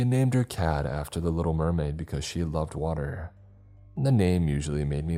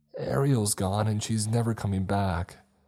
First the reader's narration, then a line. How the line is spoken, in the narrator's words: my friend was wailing